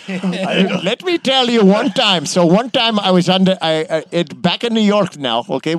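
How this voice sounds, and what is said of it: Taxi driver character voice. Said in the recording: “I could do a different personality. I could bring Mr. Singh, the taxi cab driver.”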